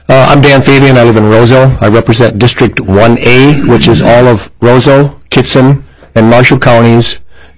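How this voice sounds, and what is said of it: Voice affected by a cold. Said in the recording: “Pardon my voice. I got a little cold.”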